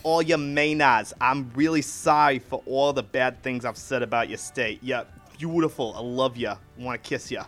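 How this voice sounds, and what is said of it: Bad put-on Boston accent. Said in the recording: “Never make that accent again ... I think I was going for more of a Boston accent ... That's not even Boston ... That was still bad ... That was New Jersey at its most generous”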